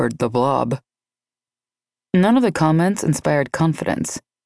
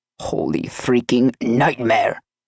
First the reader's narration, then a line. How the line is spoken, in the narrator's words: uttered in a gravelly voice